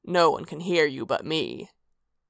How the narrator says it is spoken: he growled

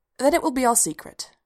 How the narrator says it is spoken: said firmly

